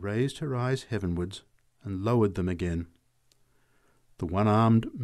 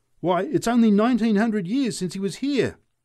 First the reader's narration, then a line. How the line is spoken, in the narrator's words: shouted the drunk